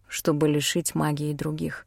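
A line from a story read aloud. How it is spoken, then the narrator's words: Quiet. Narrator (Russian): тихо сказал Алден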